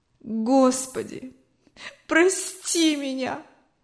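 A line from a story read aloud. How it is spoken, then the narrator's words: Tearful moan. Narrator (Russian): В слезах застонала Анна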